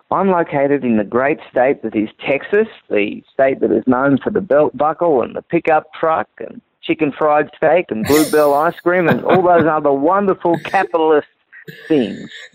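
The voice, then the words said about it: Australian English accent. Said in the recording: “we can tell by your accent that you are an immigrant from down under ... Australia.”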